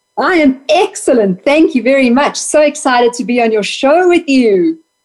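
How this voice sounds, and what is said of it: South African accent. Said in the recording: “this is a lovely accent... she's got a great accent... we have a very unique accent in South Africa”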